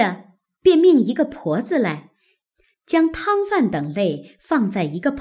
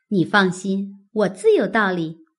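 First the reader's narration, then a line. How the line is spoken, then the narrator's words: Laughing. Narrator (Chinese): 玉串笑道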